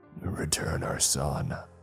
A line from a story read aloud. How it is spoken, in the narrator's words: the father wheezed